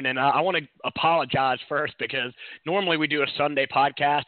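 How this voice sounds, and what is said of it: Strained voice. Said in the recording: “my voice is still a little iffy ... we did a lot of yelling”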